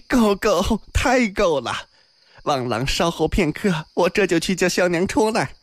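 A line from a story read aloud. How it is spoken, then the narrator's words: Beaming, laughing. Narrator (Chinese): 阿银笑容满面，笑道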